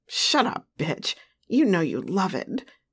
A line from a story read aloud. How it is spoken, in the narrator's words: Big Daddy growled